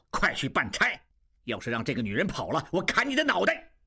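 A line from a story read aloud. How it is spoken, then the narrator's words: Angry. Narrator (Chinese): 金勇怒道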